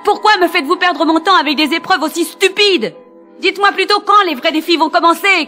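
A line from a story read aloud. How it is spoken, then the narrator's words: Shout. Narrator (French): cria Henri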